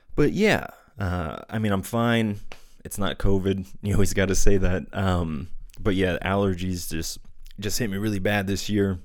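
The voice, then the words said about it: Stuffy, slightly raspy congested voice. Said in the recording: “I'm actually coming out of having a cold, so my nose is a bit stuffy, throat's a little raspy ... I sound a little off or congested”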